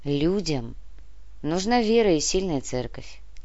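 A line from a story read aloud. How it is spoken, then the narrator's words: Quiet remark. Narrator (Russian): тихо обронил Греб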